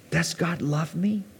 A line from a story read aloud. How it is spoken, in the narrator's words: Eve whispered